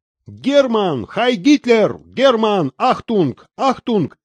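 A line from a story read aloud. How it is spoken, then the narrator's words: Amused children shouting. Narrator (Russian): кричали ребята, которых почему-то страшно веселило его имя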